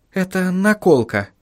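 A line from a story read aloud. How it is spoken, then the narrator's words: Quiet explanation. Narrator (Russian): тихо пояснила Сахариса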